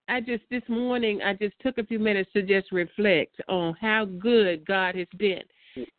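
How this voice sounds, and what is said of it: Excited, happy voice. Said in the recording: “you can just see hear the excitement in your voice.”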